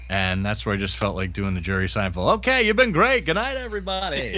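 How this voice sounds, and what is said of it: Usual voice. Nothing is said of it.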